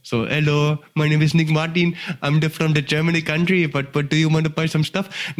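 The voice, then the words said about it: Put-on Indian accent. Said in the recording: “I could do like an Indian accent like that.”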